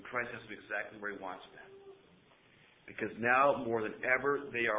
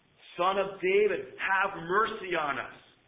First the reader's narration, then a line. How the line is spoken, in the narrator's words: They're screaming